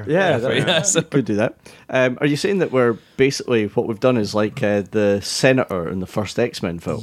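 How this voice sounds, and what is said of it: Scottish Fife accent. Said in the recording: “my Fife accent”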